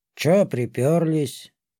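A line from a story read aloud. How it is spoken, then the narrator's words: Lazy, through teeth. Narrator (Russian): Лениво процедил фавн из-под ближайшего навеса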